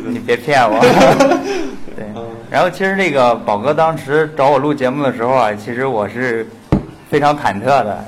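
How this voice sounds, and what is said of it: Heavy Shandong-accented Mandarin. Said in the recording (Chinese): “我那个山东话的口音可能比较重 ... 山东话都是十级”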